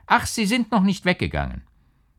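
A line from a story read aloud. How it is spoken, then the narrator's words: Excited call. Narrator (German): erregt rief er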